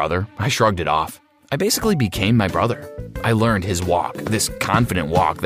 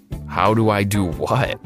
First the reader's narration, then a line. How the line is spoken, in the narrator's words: I chuckled